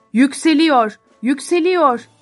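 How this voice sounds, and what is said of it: Shouting. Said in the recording (Turkish): “diye bağırmaya devam ediyorlardı”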